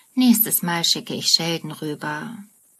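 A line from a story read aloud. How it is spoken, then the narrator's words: Murmuring. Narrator (German): Leonard murmelt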